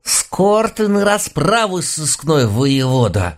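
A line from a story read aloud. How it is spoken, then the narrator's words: Muttering through clenched teeth. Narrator (Russian): Сквозь зубы пробормотала глава нашего экспертного отдела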